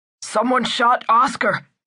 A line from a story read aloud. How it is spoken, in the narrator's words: he yelled